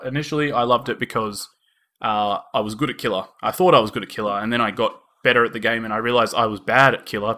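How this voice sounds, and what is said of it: Australian accent. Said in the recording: “we are from Australia. If you couldn't tell by our uh, our lovely Australian accents”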